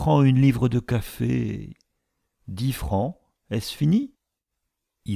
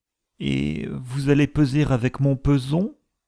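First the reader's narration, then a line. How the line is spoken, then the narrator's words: Suspiciously plaintive question. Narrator (French): demanda-t-il d'un ton si plaintif qu'il en était suspect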